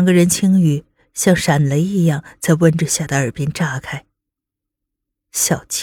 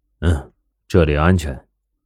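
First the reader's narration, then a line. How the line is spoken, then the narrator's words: Low voice. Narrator (Chinese): 宋时清低声道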